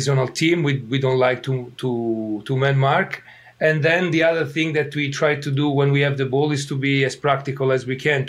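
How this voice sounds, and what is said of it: Italian accent. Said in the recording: “as you can tell from my accent,... in Italy”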